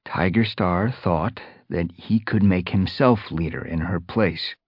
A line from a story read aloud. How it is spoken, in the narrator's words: Fireheart explained, keeping his voice carefully neutral